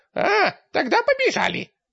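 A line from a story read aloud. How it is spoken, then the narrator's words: Cheerful imp suggestion. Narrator (Russian): предложил бесенок бодро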